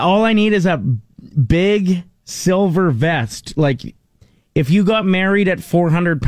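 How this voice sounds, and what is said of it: Usual voice. Nothing is said of it.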